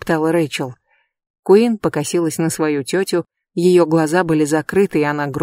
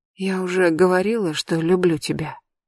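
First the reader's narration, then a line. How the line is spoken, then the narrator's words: Quiet question. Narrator (Russian): тихо спросила Рэйчел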